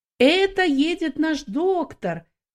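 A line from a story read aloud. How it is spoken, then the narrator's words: Shouting voices. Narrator (Russian): некоторые из них кричали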